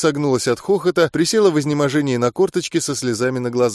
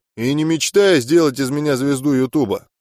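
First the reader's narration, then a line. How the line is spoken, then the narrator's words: Grumbling. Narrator (Russian): проворчал я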